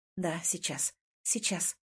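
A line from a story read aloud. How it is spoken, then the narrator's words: Whisper. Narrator (Russian): нашептываю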